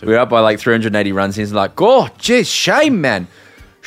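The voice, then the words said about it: Put-on South African accent. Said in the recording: “Do the South African accent too.”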